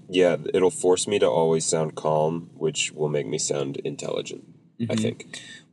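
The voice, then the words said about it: Weird, congested voice. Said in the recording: “my voice is a little bit weird... I just have a little bit of a cold or something”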